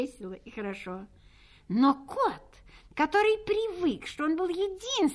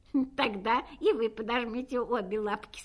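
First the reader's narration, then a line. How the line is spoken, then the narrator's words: Laughing. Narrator (Russian): смеялась собака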